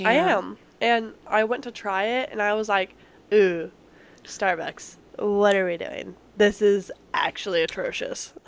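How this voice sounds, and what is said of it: Congested voice with sniffles. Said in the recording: “I have a cold or, like, allergies going on right now ... if you keep hearing me sniffle or I sound congested”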